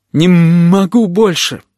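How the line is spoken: Whining. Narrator (Russian): скулил Плакса

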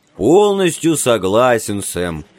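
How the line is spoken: Deep bass. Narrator (Russian): пробасил

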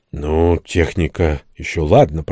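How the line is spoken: Muttering. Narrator (Russian): пробормотал я

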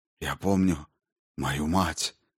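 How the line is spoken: Quiet. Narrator (Russian): сказал Курабин тихо

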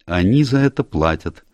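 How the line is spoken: Dry reply. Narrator (Russian): сухо ответил Энн

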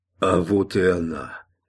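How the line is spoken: Wheezed hoarsely. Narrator (Russian): Человек, работавший рядом с Гроссвенфом, прохрипел

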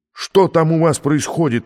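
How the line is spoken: Yelling. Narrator (Russian): вопит Вандерхузе

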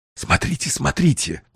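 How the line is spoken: Whisper. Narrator (Russian): прошептал Уэллс

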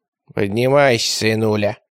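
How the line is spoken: Gloomy. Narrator (Russian): мрачно сказала Восьмирамида Акулишна

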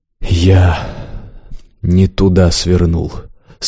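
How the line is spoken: Hoarse, hopeless. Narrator (Russian): сказал хрипло, безнадежно

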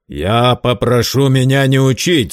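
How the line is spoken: Angry curt retort. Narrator (Russian): злобно отрезал Герд

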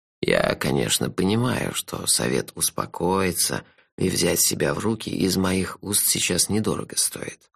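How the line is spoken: Soft, gentle. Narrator (Russian): мягко сказал мой друг

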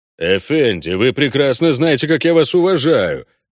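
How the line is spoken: Deep voice, growing indignation. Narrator (Russian): пробасил он, постепенно подпуская в слова возмущения

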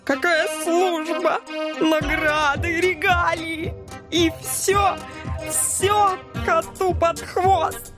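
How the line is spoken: Hurt, nearly sobbing. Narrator (Russian): Суперагент уже почти рыдал от обиды

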